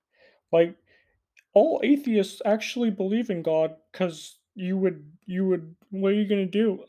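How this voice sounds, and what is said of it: Kermit-like imitation of another person's voice. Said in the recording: “I'm trying to do a Jordan Peterson impression, but I'm coming off more as ... a more incel-y Jordan Peterson. ... But it's more of a Kermit, I guess.”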